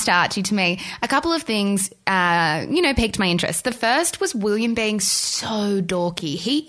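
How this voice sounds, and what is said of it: Usual voice. Nothing is said of it.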